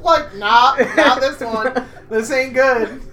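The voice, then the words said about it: Put-on Southern American accent. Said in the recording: “Why does he have a southern accent?”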